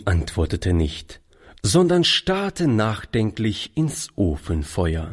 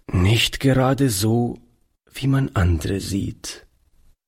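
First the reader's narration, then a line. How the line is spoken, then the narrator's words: Plain. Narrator (German): antwortete Oliver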